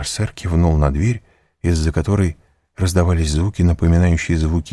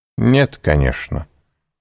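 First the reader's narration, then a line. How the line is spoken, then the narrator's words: Haughty tone. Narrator (Russian): сказал граф надменным тоном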